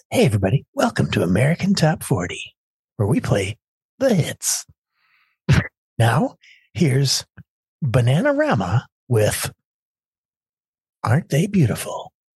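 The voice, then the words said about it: Radio DJ voice impression. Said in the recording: “It was Casey Kasem ... That's a DJ voice if I've ever heard one.”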